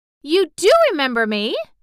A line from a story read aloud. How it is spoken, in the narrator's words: she cried out